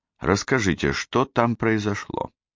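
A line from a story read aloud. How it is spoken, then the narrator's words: Request. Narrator (Russian): попросил я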